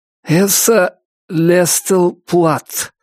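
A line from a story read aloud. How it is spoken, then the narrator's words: Strained, forced out. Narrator (Russian): выдавил Джон Лапуант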